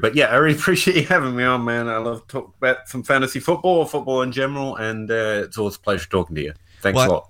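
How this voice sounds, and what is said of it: Kentucky accent. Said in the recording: “you had this awesome accent ... This is just what people in Kentucky sound like ... That's the Kentucky accent I'm hearing? ... Genuine Kentucky accent”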